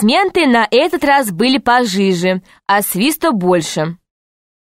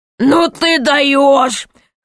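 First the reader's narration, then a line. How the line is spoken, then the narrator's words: Laughing loudly. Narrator (Russian): хохотал король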